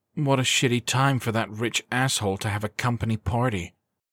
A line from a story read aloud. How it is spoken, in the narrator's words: Skylar muttered